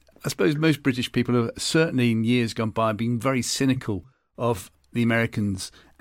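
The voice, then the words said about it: British accent. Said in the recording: “being a Brit, as you can tell by my accent,”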